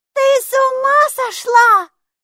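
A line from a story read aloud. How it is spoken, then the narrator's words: Shout. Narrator (Russian): закричала Майки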